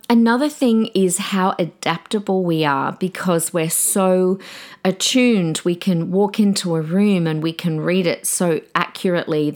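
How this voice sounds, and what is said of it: Slightly croaky voice. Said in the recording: “my voice is a little bit croaky today”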